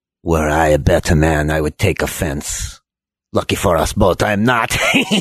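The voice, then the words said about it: Put-on accent, dry character voice. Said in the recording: “He's kind of funny. He's got some wit. A dry wit. I like the accent.”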